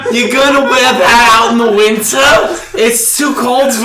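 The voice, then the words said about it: Exaggerated Jersey stereotypical Jewish mom voice. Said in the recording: “like the worst Jersey accent ... Like the stereotypical Jewish mom ... stereotypical Jewish mom”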